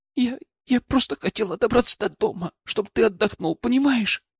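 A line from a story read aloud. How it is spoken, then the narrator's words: Whisper. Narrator (Russian): прошептала она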